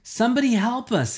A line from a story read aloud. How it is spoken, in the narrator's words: I yelled